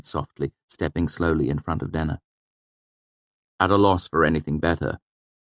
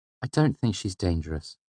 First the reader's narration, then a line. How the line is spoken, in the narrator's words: said in a normal tone behind me